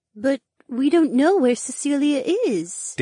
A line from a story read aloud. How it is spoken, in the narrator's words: Daisy breathed